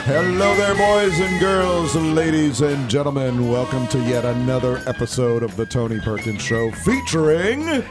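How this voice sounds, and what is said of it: Polished radio announcer voice. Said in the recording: “you have a radio voice”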